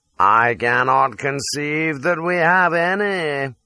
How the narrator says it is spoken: drawls he

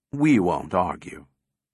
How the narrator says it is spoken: replied Cutie soothingly

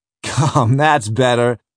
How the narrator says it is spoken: laughs the other

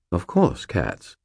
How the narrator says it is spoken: Sir Stuart said, his voice faintly amused

